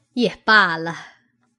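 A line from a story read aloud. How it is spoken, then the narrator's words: Said with a smile. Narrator (Chinese): 王夫人笑了一笑，说道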